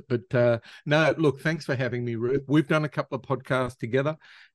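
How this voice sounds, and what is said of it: Australian accent. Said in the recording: “my silly accent ... you were from Australia ... Everyone says you talk funny”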